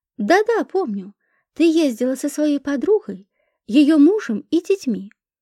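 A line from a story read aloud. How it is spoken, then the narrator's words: Exclaimed. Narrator (Russian): воскликнула тетя Мила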